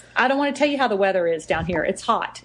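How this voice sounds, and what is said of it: Texas accent. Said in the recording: “I'm in Texas. I don't want to talk about where my accent came from.”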